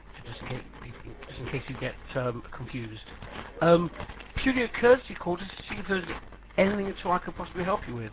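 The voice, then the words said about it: London English accent. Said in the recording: “I'm calling actually from the London office, so hence my accent.”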